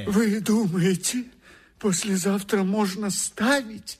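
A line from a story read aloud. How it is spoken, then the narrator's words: Frightened question. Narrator (Russian): испуганно спрашивает автор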